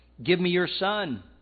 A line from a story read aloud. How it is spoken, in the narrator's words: Elijah replied